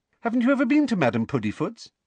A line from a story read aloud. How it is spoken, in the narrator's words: She said brightly